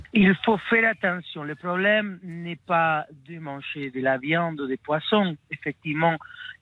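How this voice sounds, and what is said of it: Argentine accent in French. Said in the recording (French): “vous venez d'Argentine. On entend votre accent maradonien”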